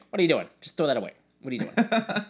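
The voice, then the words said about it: Imitates another person's voice. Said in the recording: “pretty good Mark impression”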